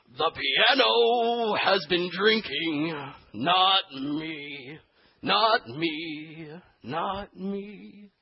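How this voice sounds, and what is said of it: Slurred, drunken-sounding singer impression. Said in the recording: “he's kind of got a slur going on his voice ... my impression of Tom Waits ... I have a little bit of a cold”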